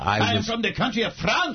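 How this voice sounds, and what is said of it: Put-on French accent. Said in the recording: “You can tell from my accent? ... Just like me, I come and go, so does my accent.”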